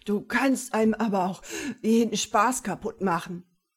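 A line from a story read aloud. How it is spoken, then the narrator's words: Breathless gasping. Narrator (German): japste, immer noch sehr atemlos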